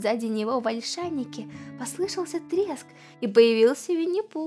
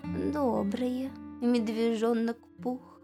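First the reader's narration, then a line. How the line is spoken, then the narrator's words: Dejected. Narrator (Russian): уныло ответил ИА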